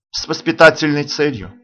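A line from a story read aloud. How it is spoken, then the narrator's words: Dry reply. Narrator (Russian): сухо отвечаю я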